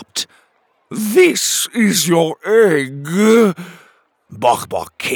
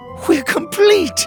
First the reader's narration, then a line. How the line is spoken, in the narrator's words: Penelope cried